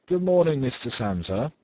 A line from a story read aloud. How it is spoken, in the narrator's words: the manager called out in a friendly way